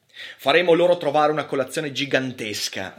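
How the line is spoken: Laughing. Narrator (Italian): rise Hathaway

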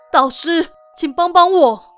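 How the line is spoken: Panicked cry. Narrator (Chinese): 诺特慌张……忍不住大叫了一声

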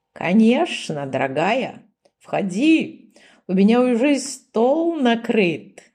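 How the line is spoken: Old man's giggle. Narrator (Russian): хихикнул старый волк

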